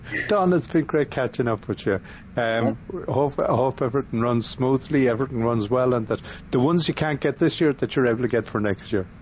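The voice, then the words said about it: Lilting accent. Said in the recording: “your lovely lilting accent”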